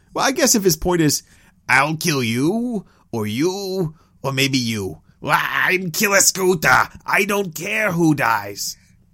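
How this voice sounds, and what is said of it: Angry, throat-straining character voice. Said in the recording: “That hurt my throat. ... I don't know how to respond to that voice ... That was my best impression ... I just made him angrier.”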